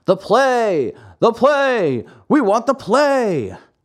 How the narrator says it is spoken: the audience, seeing that the play had stopped, became angry and began to yell

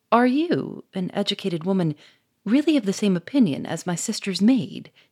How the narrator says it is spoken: exclaimed

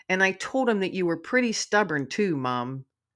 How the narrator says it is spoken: Jumping and snorting, Digger says

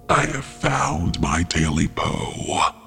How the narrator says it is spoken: the beast grunted, satisfied

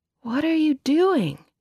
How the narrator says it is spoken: groaned

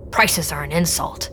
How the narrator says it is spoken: Ben muttered

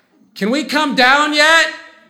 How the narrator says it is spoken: Kira yells

